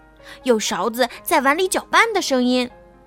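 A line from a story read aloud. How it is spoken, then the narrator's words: Shouting. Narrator (Chinese): 他们喊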